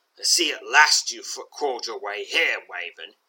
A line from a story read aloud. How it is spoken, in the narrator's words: snarls